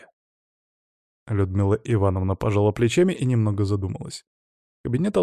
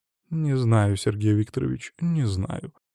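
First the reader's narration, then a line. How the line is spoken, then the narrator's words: Sigh. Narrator (Russian): вздохнула Людмила Ивановна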